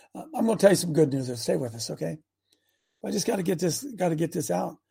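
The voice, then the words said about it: Slightly hoarse voice. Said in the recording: “a little bit hoarse this morning.”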